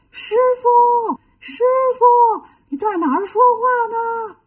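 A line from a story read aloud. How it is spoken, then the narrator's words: Calling out. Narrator (Chinese): 有人在喊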